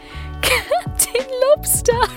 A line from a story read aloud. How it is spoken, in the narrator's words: she'd said through painful chuckles